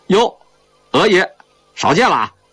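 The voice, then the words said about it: Northeastern Chinese accent. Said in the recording (Chinese): “操着东北口音的”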